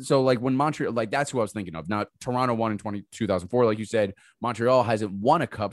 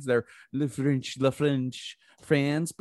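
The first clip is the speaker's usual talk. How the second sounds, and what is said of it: Bad fake French accent. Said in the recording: “That was a terrible French impression.”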